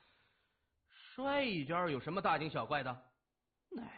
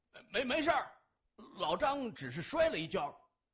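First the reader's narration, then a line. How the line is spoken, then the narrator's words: Loud shout. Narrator (Chinese): 他大声喊着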